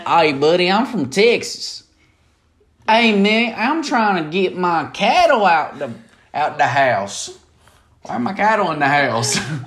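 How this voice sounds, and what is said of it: Put-on country Texas accent. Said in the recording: “You need a country accent.”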